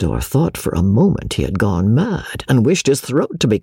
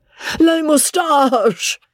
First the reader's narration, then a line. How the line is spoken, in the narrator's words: gasped Joe